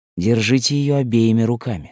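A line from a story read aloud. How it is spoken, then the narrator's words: Plain. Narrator (Russian): сказал доктор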